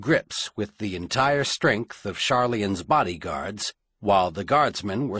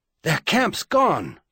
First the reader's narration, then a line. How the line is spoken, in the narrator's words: the runner panted, fierce with triumph